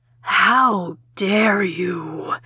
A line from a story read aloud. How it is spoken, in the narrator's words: hissed